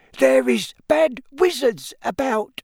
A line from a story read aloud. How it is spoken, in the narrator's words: she squeaked distractedly as she leaned forward and laboured to keep running